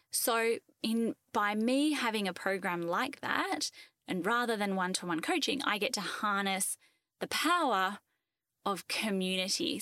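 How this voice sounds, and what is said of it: Australian accent. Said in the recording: “if anyone has heard my accent, I live in Australia. And I don't just live in Australia, I live in Western Australia”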